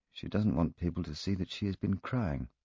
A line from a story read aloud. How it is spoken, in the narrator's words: I muttered to Poirot